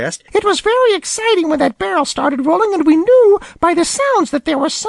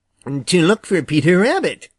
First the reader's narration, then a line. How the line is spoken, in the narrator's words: replied Jimmy